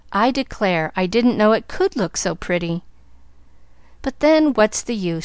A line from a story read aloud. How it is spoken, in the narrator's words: she sighed, rolling her head on the pillow fretfully